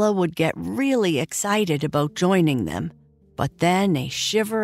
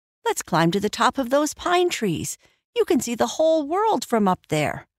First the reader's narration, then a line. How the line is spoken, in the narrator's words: Lily the Bird would chirp